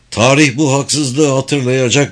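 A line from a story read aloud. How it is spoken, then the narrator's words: Shouting. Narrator (Turkish): diye bağırıyordu Fergus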